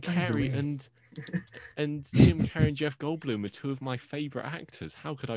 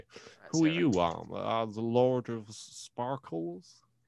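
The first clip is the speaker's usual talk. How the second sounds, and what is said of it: Imitates another person's voice. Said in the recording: “my actual Jeff Goldblum impression”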